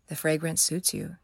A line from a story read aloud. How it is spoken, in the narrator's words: he said weakly